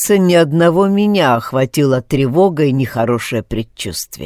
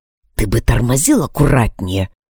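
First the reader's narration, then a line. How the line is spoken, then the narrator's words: Displeased whisper. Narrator (Russian): недовольно прошептал Алекс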